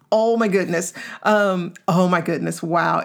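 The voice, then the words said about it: Excited, animated voice. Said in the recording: “You can hear the excitement in my voice”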